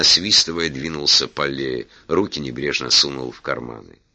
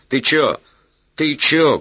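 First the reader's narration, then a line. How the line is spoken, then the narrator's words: Shouted. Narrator (Russian): крикнул Бобер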